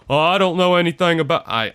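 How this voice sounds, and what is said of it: Imitates another person's voice. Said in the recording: “my best Bill Clinton impersonation”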